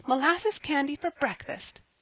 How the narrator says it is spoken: cried Polly, laughing

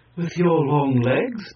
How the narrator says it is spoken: added the pretty pair of High Ki laughingly

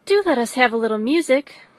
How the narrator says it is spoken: cried Miss Bingley, tired of a conversation in which she had no share

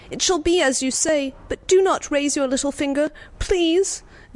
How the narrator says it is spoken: he cried

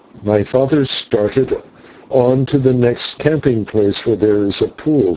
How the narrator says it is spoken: she answered

